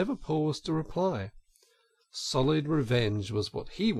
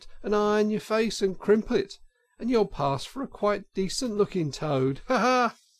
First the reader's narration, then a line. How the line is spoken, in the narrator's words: she cried out